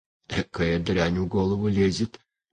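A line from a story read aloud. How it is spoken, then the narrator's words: Moaning. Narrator (Russian): стонал Филимон Прокопьевич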